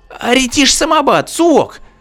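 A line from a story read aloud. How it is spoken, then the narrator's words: Female alien shriek. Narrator (Russian): взвизгнула венерианка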